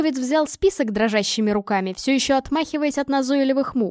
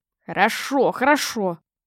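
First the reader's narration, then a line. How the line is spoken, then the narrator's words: Mutter. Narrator (Russian): пробормотал он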